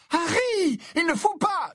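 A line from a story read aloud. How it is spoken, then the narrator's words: Screamed. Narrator (French): hurla Hermione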